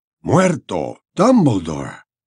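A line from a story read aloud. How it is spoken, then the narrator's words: Whisper. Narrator (Spanish): susurró el señor Weasley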